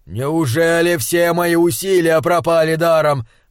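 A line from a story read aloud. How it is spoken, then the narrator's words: Desperate shout. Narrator (Russian): закричал он в потолок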